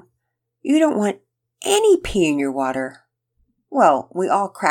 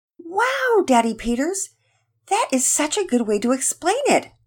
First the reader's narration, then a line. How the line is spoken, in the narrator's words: Penelope exclaimed